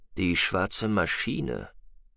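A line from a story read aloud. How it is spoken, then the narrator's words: Murmuring. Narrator (German): murmelte Adlan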